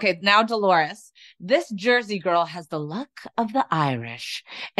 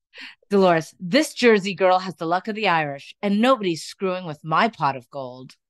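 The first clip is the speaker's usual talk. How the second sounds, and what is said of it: Put-on Irish accent. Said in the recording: “I kind of liked your Irish accent when you did it the first time.”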